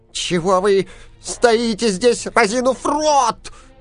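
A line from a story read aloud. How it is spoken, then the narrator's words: Dwarf's angry shout. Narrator (Russian): закричал гном … от злости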